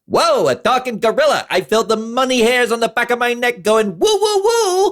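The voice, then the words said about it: Thick New York accent impression. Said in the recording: “he's got this really thick New York accent”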